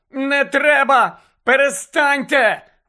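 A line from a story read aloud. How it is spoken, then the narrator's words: Tearful shrieking. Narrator (Ukrainian): верещала плаксива Мірта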